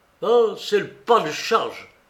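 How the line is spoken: Officer shouting. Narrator (French): cria un officier

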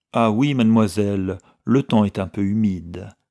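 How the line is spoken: Conciliatory. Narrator (French): répliqua Madame Madden d'un ton conciliant

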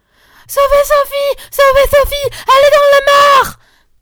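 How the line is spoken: Shouting. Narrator (French): criait Marguerite

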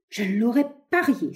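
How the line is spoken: Exclaiming. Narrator (French): s'écria-t-il

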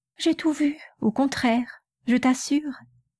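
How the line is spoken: Weary, pleading. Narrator (French): dit-elle d'une voix suppliante qui semblait demander qu'on la laissât en repos

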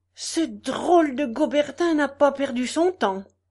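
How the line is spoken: General exclaiming. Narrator (French): s'écria le général

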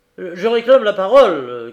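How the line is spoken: Shouting. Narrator (French): cria Frédéric

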